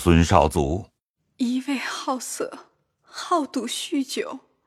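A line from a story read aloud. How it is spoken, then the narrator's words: Tearful complaining. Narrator (Chinese): 迎春方哭哭泣泣的 诉委屈，说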